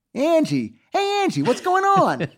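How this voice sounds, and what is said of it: Put-on Bowery Boys style accent. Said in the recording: “they talk in that accent... They're all kind of Lenny and Squiggy... Bowery boys, yes.”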